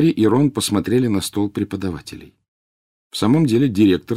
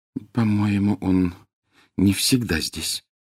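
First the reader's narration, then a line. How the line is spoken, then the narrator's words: Very quiet girl. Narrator (Russian): очень тихо сказала Гермиона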